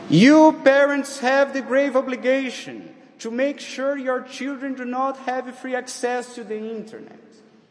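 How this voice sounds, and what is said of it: Speaker's own accent. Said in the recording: “in the case you didn't understand my accent”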